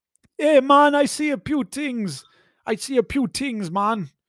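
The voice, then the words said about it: Bad put-on Jamaican accent. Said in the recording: “That is my new worst Jamaican accent you have ever heard”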